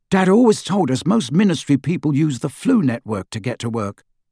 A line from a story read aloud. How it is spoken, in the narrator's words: Ron said